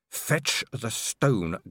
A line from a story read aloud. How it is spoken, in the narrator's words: growled Angua